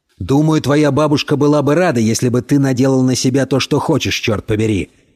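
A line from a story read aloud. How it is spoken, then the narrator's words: Barked. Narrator (Russian): рявкнул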